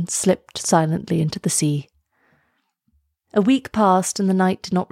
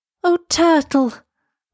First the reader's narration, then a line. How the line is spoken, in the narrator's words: cried Elsa